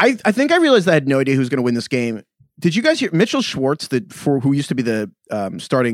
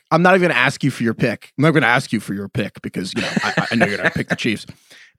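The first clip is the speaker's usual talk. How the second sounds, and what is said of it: Deep-voiced imitation of a radio host. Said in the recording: “should I do the Russillo impersonation? I can't do it as well as you ... You got to go really deep ... Yeah, get deep ... I'm so bad at them”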